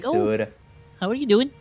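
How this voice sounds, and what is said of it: Bad sing-songy Minnesota accent. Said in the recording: “in the world's worst Minnesota accent ... Maybe instead of like a Minnesota accent, it's just Sing Songy.”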